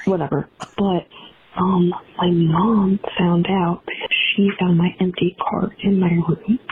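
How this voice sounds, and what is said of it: Whispering into the phone. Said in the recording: “Like, I'm on the phone whispering. ... And I'm whispering”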